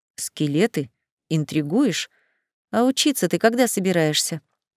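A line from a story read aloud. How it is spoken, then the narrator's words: Whispered into ear. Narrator (Russian): прошептал ей на ухо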